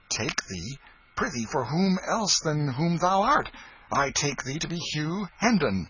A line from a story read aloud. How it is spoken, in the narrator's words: said Miles sharply